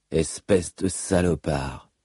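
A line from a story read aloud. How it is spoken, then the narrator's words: Murmured. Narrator (French): murmura-t-il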